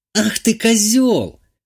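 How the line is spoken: Exclaiming. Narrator (Russian): воскликнула Ольга

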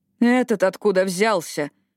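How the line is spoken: Indignant question. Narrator (Russian): возмущенно спросила она

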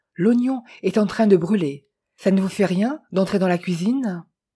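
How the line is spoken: Exclaimed. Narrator (French): s'écria Jeannette

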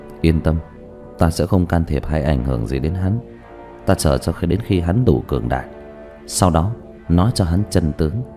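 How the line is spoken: Soft snort. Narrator (Vietnamese): Thanh y nhân hừ khẽ một tiếng

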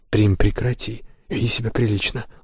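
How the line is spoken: Mother's gentle reproach. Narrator (Russian): ласково упрекнула ее мать

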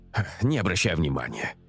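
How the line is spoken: Snorting. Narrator (Russian): хмыкнул я

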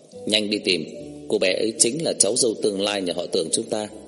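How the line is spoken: Brisk instruction. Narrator (Vietnamese): Tưởng Triệu Tường nhanh chóng dặn dò quản gia nói

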